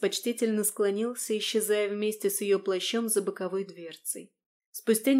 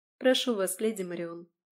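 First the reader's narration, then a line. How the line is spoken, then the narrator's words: Soft, caring voice. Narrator (Russian): мягко и с участливой заботой в голосе проговорила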